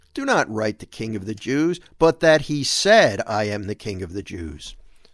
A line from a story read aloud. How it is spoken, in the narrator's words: Pilate answered